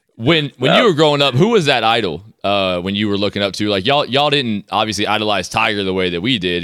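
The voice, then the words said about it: American accent. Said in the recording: “If you can't tell by that accent, he's ... American.”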